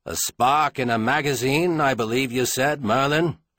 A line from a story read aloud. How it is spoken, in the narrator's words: Caleb said harshly